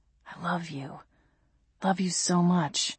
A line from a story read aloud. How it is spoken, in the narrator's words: he whispered into my neck